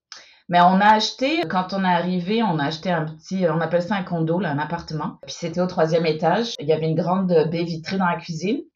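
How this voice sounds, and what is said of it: French accent with slight Quebec tinge. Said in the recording (French): “on entend le petit accent là. Ça y est, t'es devenue très très canadienne ... l'accent milieu de l'océan. C'est-à-dire que les Français trouvent qu'on a un gros accent québécois et les Québécois trouvent qu'on a un gros accent français”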